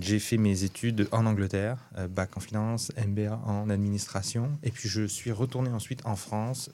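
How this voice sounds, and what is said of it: French accent. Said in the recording (French): “vous le voyez tout de suite à mon accent, moi je suis français”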